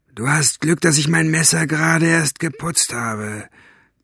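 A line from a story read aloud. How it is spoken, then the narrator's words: Hissed. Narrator (German): zischte Basta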